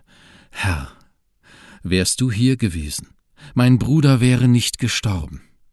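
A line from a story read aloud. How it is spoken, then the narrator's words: Trembling voice. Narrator (German): sagte mit bebender Stimme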